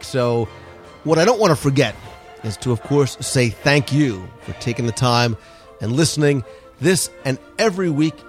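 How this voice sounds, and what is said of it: Congested, stuffy-headed voice. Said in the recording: “I sound like my head's a little cloudier than usual this week”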